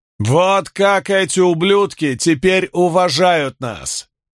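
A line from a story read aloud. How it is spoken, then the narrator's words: Shout to crowd. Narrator (Russian): прокричал он 1000 восставших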